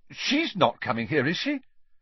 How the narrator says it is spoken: he blurted out

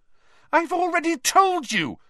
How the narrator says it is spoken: Hermione said very angrily

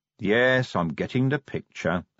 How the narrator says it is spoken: said Vimes wearily

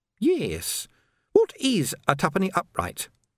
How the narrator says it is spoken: said Sandra brightly

